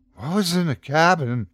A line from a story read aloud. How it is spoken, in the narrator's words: asked Johnny, panting